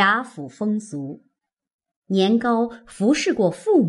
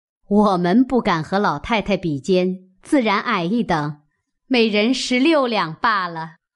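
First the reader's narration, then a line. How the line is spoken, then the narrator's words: Women laughing. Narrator (Chinese): 邢夫人、王夫人笑道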